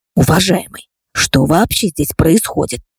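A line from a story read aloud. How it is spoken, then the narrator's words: Loud whispered question. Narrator (Russian): громким шепотом спросил представитель НТВ у мужчины, требуя объяснений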